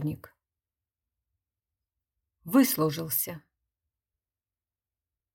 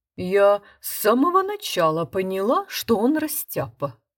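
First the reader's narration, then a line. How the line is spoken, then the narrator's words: Rich singsong voice. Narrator (Russian): пела сдобным голосом кухарка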